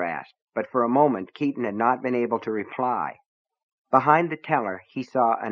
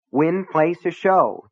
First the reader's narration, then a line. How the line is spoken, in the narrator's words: the teller repeated impatiently